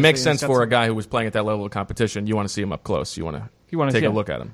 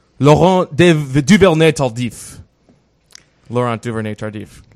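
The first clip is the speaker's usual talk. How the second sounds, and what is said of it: Exaggerated French accent. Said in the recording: “as I pronounce with my dirty French accent”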